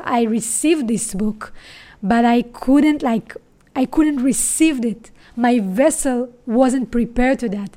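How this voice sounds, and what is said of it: Israeli-accented English. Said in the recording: “I have an Israeli accent”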